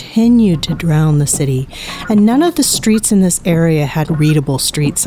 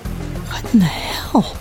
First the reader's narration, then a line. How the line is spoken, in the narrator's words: Rachel whispered